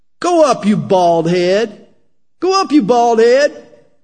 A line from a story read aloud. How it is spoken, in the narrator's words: some youths came from the city and mocked him and said to him